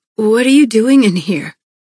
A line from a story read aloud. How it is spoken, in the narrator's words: I rasped